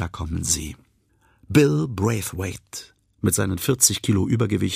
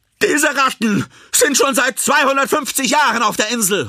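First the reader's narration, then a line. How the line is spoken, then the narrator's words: Called out. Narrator (German): ruft LaJoy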